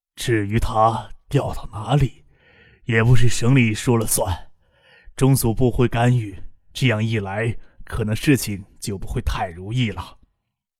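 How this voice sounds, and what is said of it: Calm, slow voice. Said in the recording (Chinese): “用一种静缓的声音说着话”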